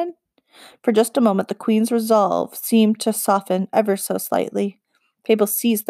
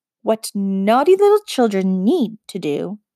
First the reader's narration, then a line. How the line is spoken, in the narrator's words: the queen said, cutting her off sharply, her moment of softness whipping away like a snuffed candle